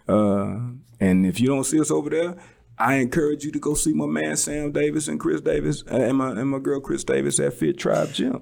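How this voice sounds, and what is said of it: Deep bassy late-night radio voice. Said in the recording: “Why you gotta put some bass in your voice? ... that's my late night radio voice.”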